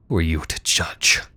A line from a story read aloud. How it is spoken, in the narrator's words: She hissed